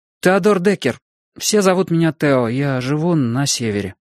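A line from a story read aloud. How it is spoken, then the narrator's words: Unsure. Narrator (Russian): неуверенно прибавил я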